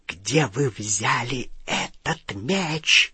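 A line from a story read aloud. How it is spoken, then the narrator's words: Hissed. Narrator (Russian): прошипела она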